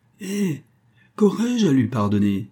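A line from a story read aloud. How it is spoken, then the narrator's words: Exclaimed. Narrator (French): s'écria le milliardaire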